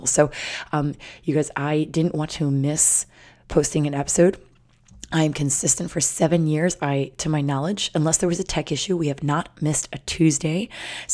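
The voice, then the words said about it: Hoarse voice. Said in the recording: “my voice is going to be hoarse”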